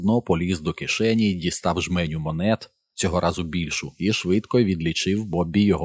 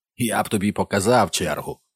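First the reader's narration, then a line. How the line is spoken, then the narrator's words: Barking. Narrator (Ukrainian): гаркнув містер Макквон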